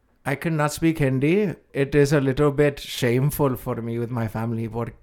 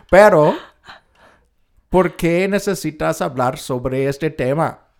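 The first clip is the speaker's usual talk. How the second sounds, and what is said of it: Spanish spoken with put-on Indian accent. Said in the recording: “I'm going to start speaking Spanish with an Indian accent. It's very weird.”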